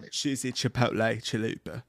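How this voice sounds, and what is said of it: Put-on sultry salesman accent. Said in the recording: “It sounds like you want to sell me cheap ass cologne at the mall ... I'm killing the accent ... You're killing the possibility of it ever being sexy again”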